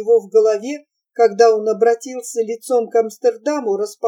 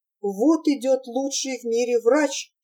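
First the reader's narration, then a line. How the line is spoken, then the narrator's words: Whisper. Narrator (Russian): шептал голос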